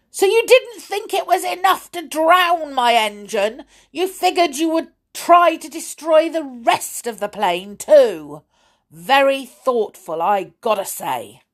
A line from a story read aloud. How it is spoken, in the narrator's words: I heard Millie shouting